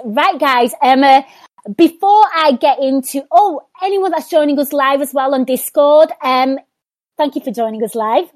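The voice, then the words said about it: Hoarse, strained voice. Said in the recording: “I don't know where my voice is going ... It's from all the yelling to celebrate ... there's been a lot of screaming ... maybe I need to get some vocal rest”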